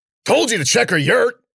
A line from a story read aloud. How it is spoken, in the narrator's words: Warner yelled